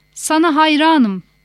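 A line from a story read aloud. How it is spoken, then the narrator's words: Shouting. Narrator (Turkish): diye bağırıyor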